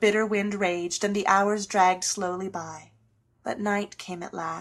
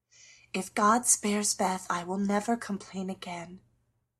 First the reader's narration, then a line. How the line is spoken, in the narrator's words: whispered Meg earnestly